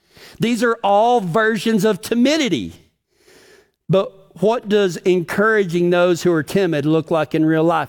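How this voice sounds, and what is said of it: Texas accent. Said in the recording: “My Texas accent wouldn't let me do an OR for a minute.”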